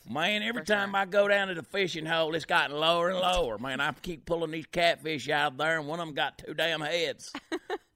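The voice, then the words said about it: Put-on redneck accent. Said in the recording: “like, redneck girl, trying to talk”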